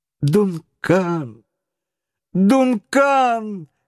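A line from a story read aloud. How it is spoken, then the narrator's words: Desperate shout. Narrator (Russian): крикнул Паганель в отчаянии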